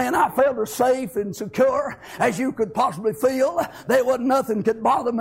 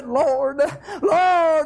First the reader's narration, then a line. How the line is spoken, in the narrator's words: we've cried out and we've said